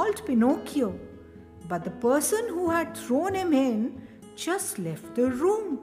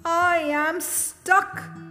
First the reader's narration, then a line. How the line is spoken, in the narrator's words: cried Pinocchio